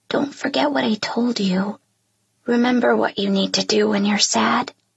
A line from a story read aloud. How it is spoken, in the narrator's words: He leans over and whispers in my ear